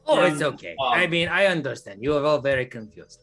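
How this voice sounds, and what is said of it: Scary character voice. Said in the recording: “Mr. Scary Voice Man”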